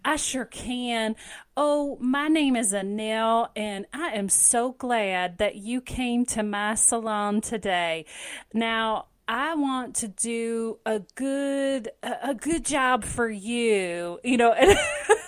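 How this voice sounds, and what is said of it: Put-on deep Southern American accent. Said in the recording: “she had that deep southern accent ... can you do a southern accent? ... it sounds Southern”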